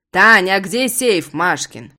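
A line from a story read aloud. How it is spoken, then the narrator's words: Father's booming bass. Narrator (Russian): гремит басом папа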